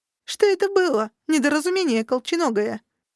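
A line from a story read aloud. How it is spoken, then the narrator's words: Snide, mocking. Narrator (Russian): Я ехидно ухмыльнулась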